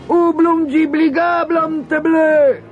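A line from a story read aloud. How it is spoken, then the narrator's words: Frightened shout. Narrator (Italian): gridarono, pensando che Lilliput aveva trovato uno spaventoso gigante per combattere contro di loro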